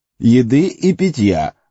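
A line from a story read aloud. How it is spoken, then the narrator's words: Loud. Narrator (Russian): громко добавил Том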